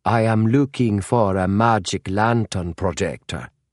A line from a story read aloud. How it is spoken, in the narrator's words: said Holmes in his slight Norwegian accent